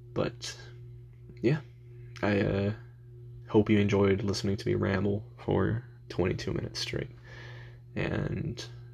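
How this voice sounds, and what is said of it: Tired, very calm voice. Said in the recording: “my voice may be a little bit less calm than it is right now but my eyes have been closed for probably the past 10 minutes I'm i'm pretty tired”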